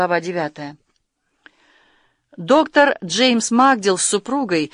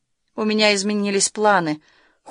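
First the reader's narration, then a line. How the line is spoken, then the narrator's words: Cold, smiling. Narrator (Russian): холодно улыбнулась Карен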